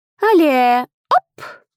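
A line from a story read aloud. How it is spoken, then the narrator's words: Laughing. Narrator (Russian): рассмеялась Лила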